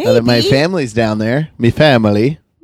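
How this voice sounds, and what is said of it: Muddled mix of put-on accents. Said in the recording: “That was an attempt at like three different accents, and then your brain didn't know which way to go. ... that horrible accent”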